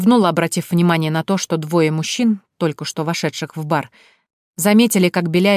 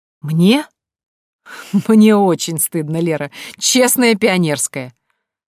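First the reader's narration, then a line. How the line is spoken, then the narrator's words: Laughing. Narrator (Russian): Он засмеялся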